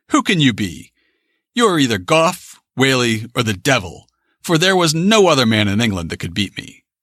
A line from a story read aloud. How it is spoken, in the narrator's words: The firmness and determinateness with which he spake struck the gentleman, who, desisting, exclaimed